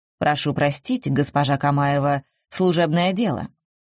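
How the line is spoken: Dry. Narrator (Russian): сухо ответил Пушкин

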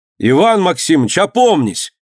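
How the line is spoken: Sudden loud speech. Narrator (Russian): заговорил вдруг громко

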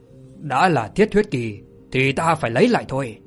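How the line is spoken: Cold laugh, then angry. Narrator (Vietnamese): Thạch Kiếm cười nhạt rồi giận dữ mà nói

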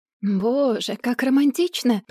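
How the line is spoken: Mutter. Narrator (Russian): пробормотала она

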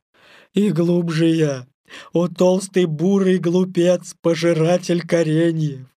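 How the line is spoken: Groaned. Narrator (Russian): простонал Балу

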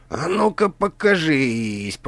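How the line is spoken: Hiss. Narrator (Russian): прошипел Грант

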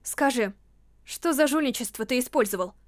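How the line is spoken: Cold question. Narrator (Russian): Холодно спросила она

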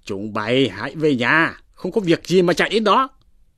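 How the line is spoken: Shouting. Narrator (Vietnamese): Thạch Dũng, Đỗ Thiên bèn quát lên rằng

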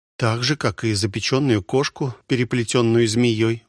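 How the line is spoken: Sighing. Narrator (Russian): вздохнула Ольга

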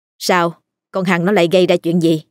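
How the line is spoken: Curt question. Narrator (Vietnamese): hỏi cộc lốc

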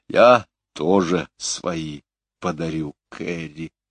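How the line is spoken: Slowly spoken. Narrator (Russian): медленно выговорила

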